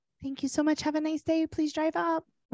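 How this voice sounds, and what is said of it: Soft nighttime voice. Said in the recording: “doing her nighttime voice.”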